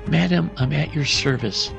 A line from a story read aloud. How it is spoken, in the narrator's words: said the senator